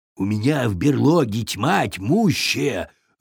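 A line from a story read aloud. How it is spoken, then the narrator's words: Bear's growl. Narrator (Russian): рыкнул медведь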